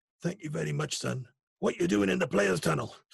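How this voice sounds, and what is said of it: Attempted Scottish accent impression. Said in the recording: “was that a May accent or was that Frank Burrows? ... I can't do a Scottish accent. ... it sounds like Sean Connery then”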